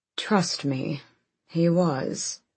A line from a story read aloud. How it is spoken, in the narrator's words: Gabrielle muttered